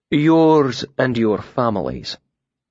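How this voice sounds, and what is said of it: Deep warm bass, slight musical accent. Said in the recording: “His voice was deeper than mine, a warm bass with enough of a Modegan accent to lend it a slight musical cant ... his deep voice filled with certainty”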